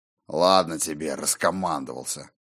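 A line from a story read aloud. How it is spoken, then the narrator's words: Good-natured grumble. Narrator (Russian): пробурчал Скьёльд, но беззлобно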